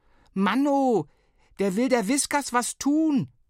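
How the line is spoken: Bellowed. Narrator (German): brüllte Flo

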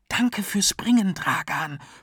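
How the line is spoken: Whispering. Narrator (German): flüsterte er

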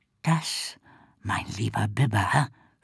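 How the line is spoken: Moved whisper. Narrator (German): flüsterte Ricky ergriffen

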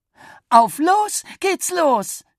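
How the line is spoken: Mother calling out. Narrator (German): rief Mama

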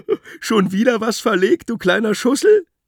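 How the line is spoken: Giggling baboon. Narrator (German): kicherte der Pavian

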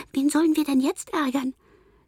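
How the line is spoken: Voice amid crowd chatter. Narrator (German): hört im Stimmgewirr

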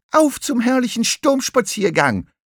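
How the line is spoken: Calling out. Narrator (German): rief Lachmöwe

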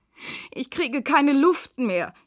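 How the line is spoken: Gasping for breath. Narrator (German): japst Lea, die nun unten liegt

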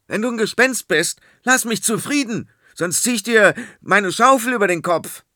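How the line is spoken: Frightened but brave shout. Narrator (German): erschrak, doch da er ein mutiger Bursche war, schrie

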